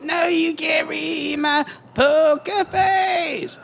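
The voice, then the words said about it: Cartoon kid character voice. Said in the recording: “your best Cartman impression ... That's pretty good.”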